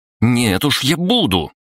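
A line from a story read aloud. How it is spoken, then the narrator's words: Irritated objection. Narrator (Russian): раздраженно возразила Кристина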